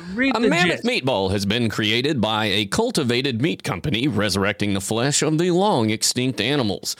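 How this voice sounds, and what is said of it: Mock newscaster reading voice. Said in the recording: “doing this voice like you're a newscaster”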